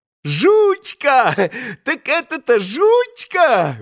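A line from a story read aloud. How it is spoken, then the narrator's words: Blissful shouting. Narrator (Russian): выкрикивал он блаженным голосом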